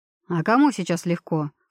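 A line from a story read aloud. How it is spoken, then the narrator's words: Snorted. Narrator (Russian): фыркнул Брэндон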